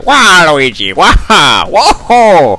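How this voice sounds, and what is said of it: Waluigi cartoon character voice. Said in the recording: “do a Waluigi impression. You know, I am nowhere near as good”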